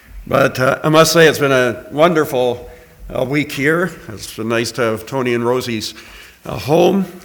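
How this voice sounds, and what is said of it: Voice starting to go hoarse. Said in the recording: “I'm starting to lose my voice a little bit”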